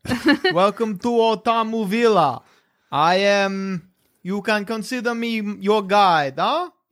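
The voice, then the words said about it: Put-on South African accent. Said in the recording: “We should pick an accent for Infernal ... Oh, South African, I'll call it.”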